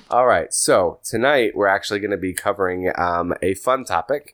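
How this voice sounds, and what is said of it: Unusually deep voice. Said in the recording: “your voice is sounding pretty deep tonight ... I am not feeling 100% ... Radio voice.”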